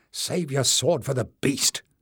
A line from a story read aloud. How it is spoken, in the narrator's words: snapped Jasmine